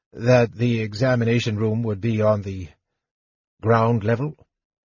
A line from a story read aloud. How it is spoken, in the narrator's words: Fizban asked in a hopeless tone